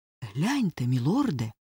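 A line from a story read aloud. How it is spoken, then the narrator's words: Frightened whisper. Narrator (Ukrainian): злякано прошепотів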